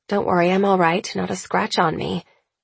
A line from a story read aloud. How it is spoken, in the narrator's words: I mutter